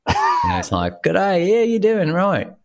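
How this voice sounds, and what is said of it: Poor imitated outback Australian accent. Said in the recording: “my imitation of your accent is horrible ... That was, yeah, I would say a little bit more outback Australian.”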